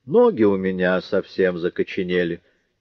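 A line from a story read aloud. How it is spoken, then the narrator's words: Plain. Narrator (Russian): сказал он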